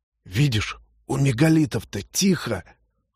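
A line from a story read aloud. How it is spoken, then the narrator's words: Hoarse whisper. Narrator (Russian): хриплым шепотом сказал кто-то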